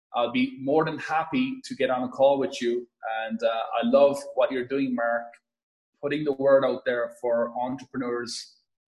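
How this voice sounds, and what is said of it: Irish accent. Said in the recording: “as you could probably hear from my accent, born and raised in a farm in Ireland”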